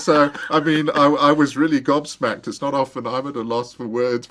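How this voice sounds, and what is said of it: South African accent. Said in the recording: “you've got such a neat accent. ... I'm from South Africa.”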